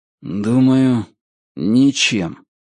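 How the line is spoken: Gloomy. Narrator (Russian): мрачно ответил Ричард

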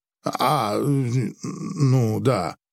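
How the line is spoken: Mumbled. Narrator (Russian): промямлил Григ

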